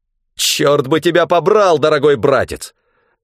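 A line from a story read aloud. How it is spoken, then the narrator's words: Angry bark. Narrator (Russian): Злобно рявкнул он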